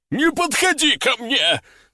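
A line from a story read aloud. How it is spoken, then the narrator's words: Shrieking. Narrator (Russian): завизжал он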